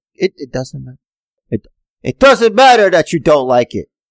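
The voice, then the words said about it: Imitates another person's voice. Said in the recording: “That's The Rock. ... It's not a very good impression.”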